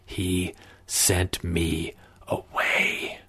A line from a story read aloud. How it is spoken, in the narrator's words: Connell whispered